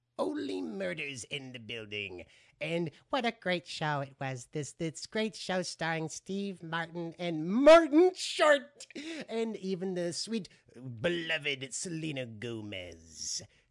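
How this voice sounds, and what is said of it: Half-hearted comedic character impression. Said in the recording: “that was my half-assed Jiminy Glick impersonation”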